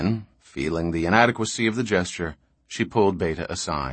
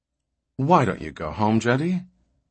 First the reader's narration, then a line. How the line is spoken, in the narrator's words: Her voice was a cheerfully businesslike intrusion on the soft, flabby inanities that had preceded